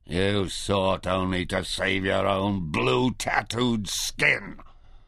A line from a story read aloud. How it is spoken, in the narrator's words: snarled